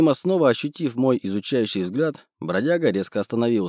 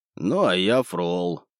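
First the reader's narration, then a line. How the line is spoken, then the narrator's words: Muttered. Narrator (Russian): буркнул мой новый знакомый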